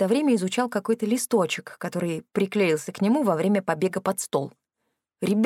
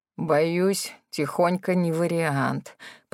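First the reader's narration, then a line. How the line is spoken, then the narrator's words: Grumbled. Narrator (Russian): пробурчал Кракен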